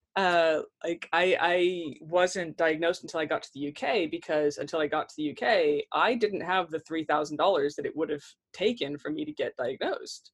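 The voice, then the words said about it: American accent. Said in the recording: “as you can probably tell from my accent, I'm an American”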